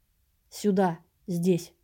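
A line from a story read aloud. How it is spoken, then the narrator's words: Calm and hard. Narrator (Russian): спокойно и жестко сказал кто-то рядом со мной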